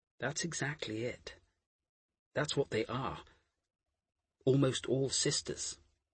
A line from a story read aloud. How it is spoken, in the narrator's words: Harris said gently